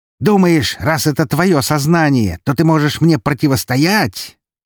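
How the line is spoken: Creature yelling. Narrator (Russian): орала тварь

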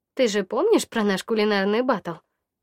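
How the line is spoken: Sighing. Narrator (Russian): вздохнула

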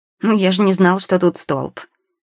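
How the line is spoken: Snorting boy. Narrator (Russian): фыркнул паренек

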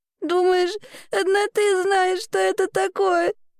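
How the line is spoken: Sobbing girl. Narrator (Russian): всхлипывала девочка

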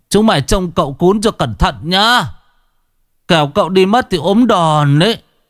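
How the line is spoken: Old person's yell. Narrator (Vietnamese): cụ lại thét

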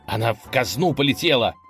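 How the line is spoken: Shouting prince. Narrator (Russian): закричал князь

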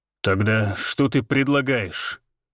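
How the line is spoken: Through gritted teeth. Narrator (Russian): процедил сквозь зубы Валентин

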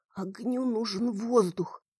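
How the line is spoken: Muttering again. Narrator (Russian): снова пробормотала

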